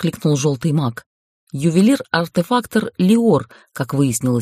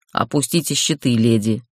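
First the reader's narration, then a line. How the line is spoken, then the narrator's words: Grumbling. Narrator (Russian): проворчал Махин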